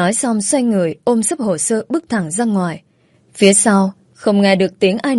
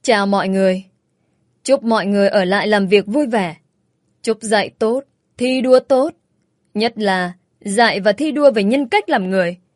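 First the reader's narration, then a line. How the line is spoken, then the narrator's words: Harsh sarcastic laugh. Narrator (Vietnamese): tôi bật cười gằn giọng lên tiếng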